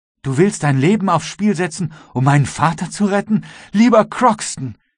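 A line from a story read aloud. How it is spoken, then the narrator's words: Calling. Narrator (German): rief Jenny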